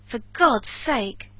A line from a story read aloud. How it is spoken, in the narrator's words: cried Montgomery